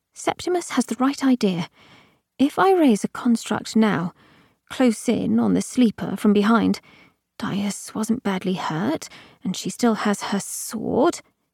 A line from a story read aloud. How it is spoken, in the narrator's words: Harrow murmured